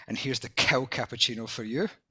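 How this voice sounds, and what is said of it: Indignant quoted voice. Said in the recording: “in a very indignant voice.”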